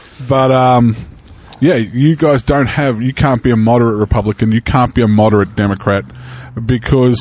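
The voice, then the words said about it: Slight foreign accent. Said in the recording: “As an observer from another country... I have a small accent.”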